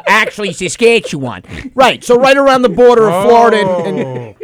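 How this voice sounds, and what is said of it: Put-on Western Canadian accent. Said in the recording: “That was a Western Canadian accent. I like it. It was right on.”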